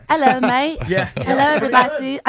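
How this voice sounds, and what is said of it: Put-on British accent. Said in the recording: “Give us your British accent”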